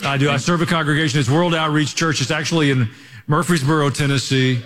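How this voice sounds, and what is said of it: Southern US hillbilly accent. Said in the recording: “We could tell you're kind of from the South ... it's an authentic hillbilly you hear in my voice ... I've got a little bit of an accent”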